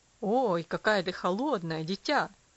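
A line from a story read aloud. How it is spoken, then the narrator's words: Father's exclamation. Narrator (Russian): воскликнул отец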